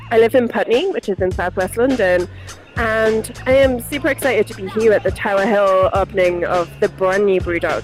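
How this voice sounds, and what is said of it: Northeast English accent. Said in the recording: “originally I'm from the Northeast, so I have a very strange accent”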